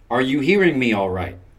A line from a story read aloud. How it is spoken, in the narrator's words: I asked